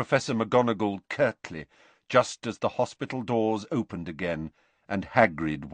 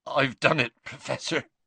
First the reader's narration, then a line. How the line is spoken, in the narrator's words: he choked